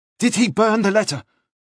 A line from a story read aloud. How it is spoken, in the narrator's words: Nielsen said anxiously